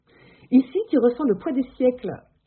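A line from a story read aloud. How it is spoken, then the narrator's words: Enthusiastic woman's exclamation. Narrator (French): s'écrie une trentenaire aux cheveux bouclés et au visage poupin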